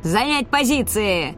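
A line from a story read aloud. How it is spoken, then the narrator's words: Yelling. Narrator (Russian): орал Хольт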